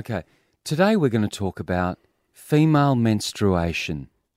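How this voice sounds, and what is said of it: Caring newsreader voice, no Irish accent. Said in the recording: “my sort of best kind of voice, I care voice ... We'll get rid of your Irish accent.”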